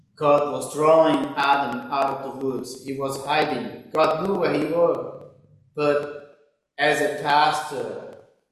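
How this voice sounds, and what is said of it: Speaks with a noticeable accent. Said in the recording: “Can you understand his accent?”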